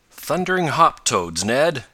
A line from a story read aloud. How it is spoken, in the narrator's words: he exclaimed